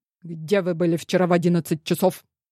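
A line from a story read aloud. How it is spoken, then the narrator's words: Sharp, abrupt question. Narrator (Russian): резко спросил, как выстрелил Дмитрий Николаевич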